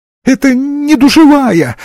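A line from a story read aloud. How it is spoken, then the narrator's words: Whimpering. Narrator (Russian): захныкал слабоумный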